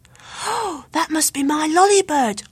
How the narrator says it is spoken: cried Luke

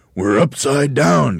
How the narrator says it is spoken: gasped Mr

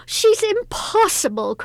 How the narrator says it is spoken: cried the mistress

